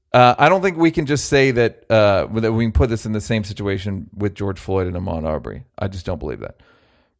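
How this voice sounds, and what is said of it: Imitates another person's voice. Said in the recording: “I do a good Barkley ... that's a good Barkley”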